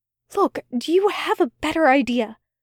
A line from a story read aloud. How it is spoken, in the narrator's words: Aziraphale whispered back